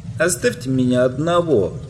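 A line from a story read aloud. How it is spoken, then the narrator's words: Sobbing, then louder. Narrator (Russian): прохлыкал Подлус, но начал более громким голосом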